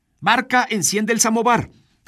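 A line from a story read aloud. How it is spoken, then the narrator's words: Woman shouting. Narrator (Spanish): grita el ama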